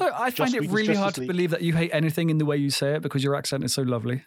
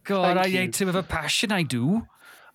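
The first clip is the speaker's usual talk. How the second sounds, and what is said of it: Put-on Welsh accent. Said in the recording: “I have to say I do at the end to get the Welsh in there ... And that was a good Welsh ... A good Welsh accent.”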